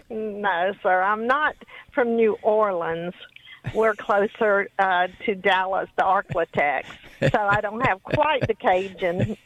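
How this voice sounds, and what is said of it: Louisiana Southern accent. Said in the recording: “from Louisiana, I could tell by your accent”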